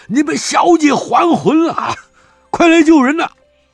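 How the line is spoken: Loud shouting. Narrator (Chinese): 高声嚷道

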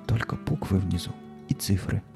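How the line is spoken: Whisper. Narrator (Russian): прошептала Наталка

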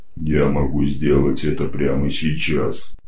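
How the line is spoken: Booming bass, metallic creature. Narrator (Russian): ухнул басом металлический псевдочеловек

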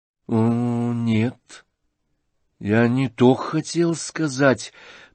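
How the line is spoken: Drawn-out, after a pause. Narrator (Russian): протянул вдруг князь после некоторого молчания

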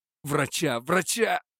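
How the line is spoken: Cry out. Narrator (Russian): вскрикнул он

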